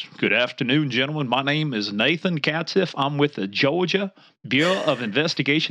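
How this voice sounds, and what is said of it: Deep Southern Georgia accent. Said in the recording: “he had that deep Southern Georgia accent”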